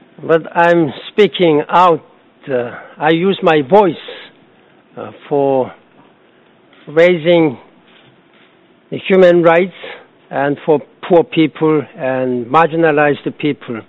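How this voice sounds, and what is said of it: Weak, nearly lost voice. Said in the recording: “please excuse my voice. My voice has gone down, almost lost my voice.”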